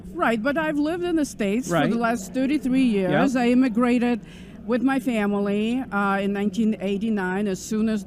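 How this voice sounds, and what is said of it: Ukrainian accent. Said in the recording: “she has a beautiful accent ... she's also from Ukraine”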